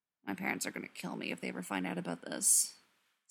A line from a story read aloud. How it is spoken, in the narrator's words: Spencer grumbled, low and dangerous